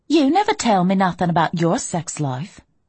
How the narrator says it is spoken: she said crossly

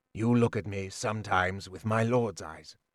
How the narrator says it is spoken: he said quietly

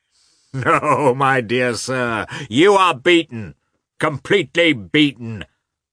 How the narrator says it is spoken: shouted Katavasov merrily

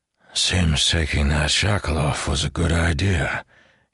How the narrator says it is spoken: he said weakly

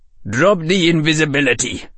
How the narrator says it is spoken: growled Barry

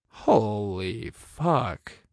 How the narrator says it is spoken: I breathed

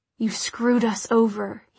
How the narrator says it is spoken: he murmured

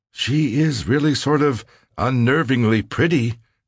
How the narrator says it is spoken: said, and laughed

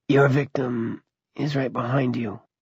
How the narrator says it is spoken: Drogon said softly

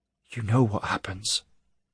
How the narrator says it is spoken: she whispered, and her eyes glittered with tears

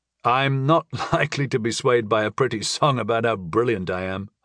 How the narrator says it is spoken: I chuckled

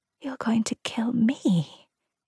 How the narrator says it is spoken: she whispered

